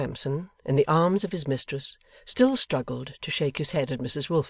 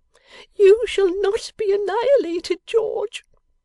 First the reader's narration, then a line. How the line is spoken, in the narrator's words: cried Miss Lavinia